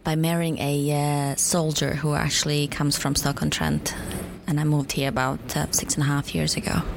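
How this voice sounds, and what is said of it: Bosnian accent. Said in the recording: “desperately trying to place your accent ... I'm Bosnian”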